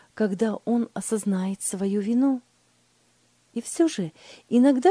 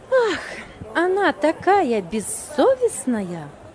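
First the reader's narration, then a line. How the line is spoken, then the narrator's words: Sighing. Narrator (Russian): Вздохнула Лиля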